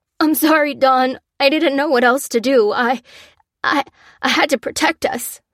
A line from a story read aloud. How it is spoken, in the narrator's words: he choked